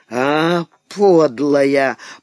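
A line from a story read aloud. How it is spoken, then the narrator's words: Hoarse wheeze. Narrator (Russian): прохрипел он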